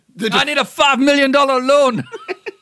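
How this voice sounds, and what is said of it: Put-on Scottish accent. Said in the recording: “you switch to Willie... I was trying to do a Scottish accent from Shrek”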